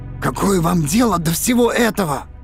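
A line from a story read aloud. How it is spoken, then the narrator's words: Hoarse question. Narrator (Russian): хрипло спросил Торн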